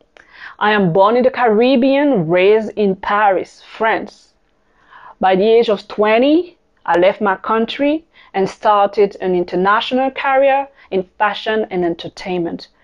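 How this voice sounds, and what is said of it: French accent. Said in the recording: “I am French. This is where my accent is coming from.”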